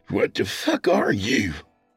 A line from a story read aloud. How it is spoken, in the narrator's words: Leonard spat